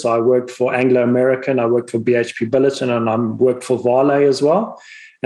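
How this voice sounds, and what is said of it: Zimbabwean accent. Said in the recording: “if people might be able to pick up from my accent, I'm originally from Zimbabwe”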